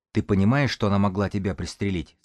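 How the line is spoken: Quiet speech. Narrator (Russian): сказал он тихо

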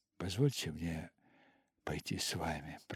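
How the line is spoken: Whispered. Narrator (Russian): прошептал

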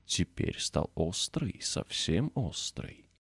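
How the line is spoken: Pleased whisper. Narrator (Russian): шептал с довольным видом

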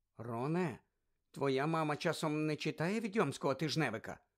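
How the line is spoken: Quiet question. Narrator (Ukrainian): тихо спитала Герміона

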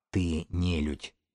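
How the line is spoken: Unexpectedly quiet, resigned. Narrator (Russian): неожиданно тихо сказала Эва, перестав сопротивляться

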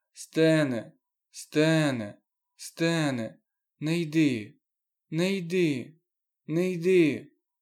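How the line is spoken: Old man's moaning plea. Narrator (Ukrainian): старий і далі стогнав

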